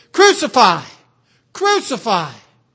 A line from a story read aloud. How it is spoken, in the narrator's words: they cried out saying